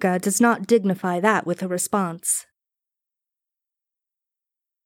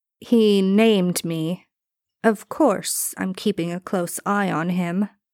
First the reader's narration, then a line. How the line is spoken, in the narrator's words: Haruka says, slowly and clearly, as if addressing an idiot